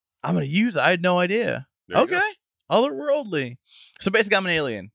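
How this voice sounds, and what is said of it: Hard-to-place mixed accent. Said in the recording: “my accent sounds like shit ... otherworldly ... you can't place where the accent is”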